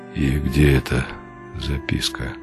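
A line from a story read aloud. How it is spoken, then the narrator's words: Muffled, hollow question. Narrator (Russian): глухо спросил он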